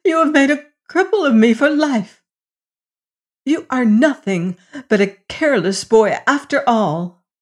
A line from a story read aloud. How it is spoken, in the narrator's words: she cried